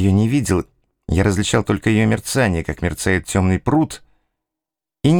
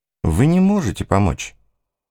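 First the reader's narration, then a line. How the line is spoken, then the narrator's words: Simple and soft. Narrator (Russian): сказал он очень просто и мягко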